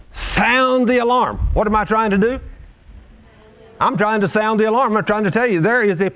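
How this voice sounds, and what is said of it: Screaming, shouting loudly. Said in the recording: “Why am I screaming?”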